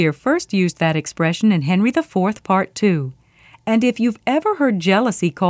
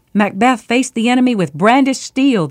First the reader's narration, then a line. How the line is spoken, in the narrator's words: the soldier gasped